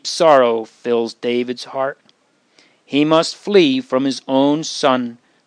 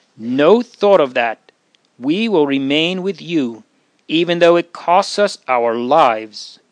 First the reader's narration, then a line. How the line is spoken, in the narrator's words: Ittai answers firmly